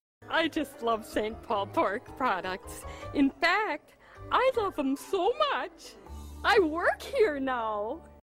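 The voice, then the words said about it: Minnesota accent, slightly exaggerated. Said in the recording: “not a put upon accent... Like that is her accent... That maybe exaggerated a smidge, but this is Minnesota”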